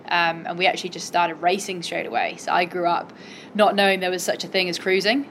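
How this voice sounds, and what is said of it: Cornish English accent. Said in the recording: “The accent obviously tells us something of a story. You grew up in Cornwall ... yep, accents there”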